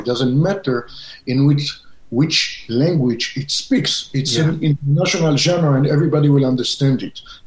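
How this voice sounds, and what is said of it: Israeli-accented English. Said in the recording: “you can hear my accent. ... I'm from Israel”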